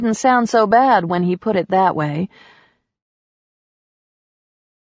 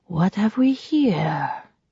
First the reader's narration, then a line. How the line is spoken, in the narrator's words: breathed